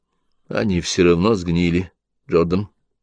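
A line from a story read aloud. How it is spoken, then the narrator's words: Soft remark. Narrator (Russian): мягко заметил Том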